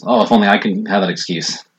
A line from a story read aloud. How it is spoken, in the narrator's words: chuckles and says